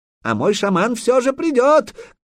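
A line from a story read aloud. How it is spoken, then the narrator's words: Shout after someone. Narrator (Russian): крикнул ему вслед Курей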